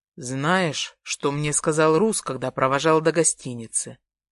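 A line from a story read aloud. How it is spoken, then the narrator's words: Calm question. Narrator (Russian): Спокойно спрашивает Артем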